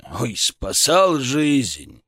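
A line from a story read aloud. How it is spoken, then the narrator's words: Scoffing snort. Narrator (Russian): хмыкнул Шаповалов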